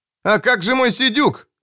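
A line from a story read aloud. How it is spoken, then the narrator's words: Shouting. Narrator (Russian): закричал Том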